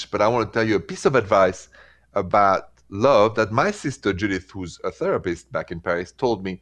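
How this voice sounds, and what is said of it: French accent. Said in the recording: “My accent is French”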